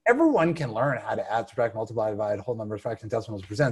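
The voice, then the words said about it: Very fast rattled-off speech. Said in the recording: “I said that really fast”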